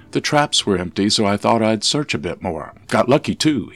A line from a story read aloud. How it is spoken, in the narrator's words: he said